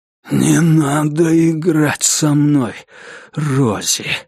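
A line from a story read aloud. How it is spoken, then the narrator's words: Breathy exhale. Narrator (Russian): выдохнул он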